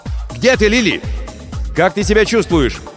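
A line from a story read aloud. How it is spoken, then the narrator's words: Shouted toward distance. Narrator (Russian): закричал в направлении корабля Крисмас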